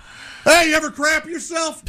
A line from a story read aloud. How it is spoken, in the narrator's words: yelling that out to one of the actors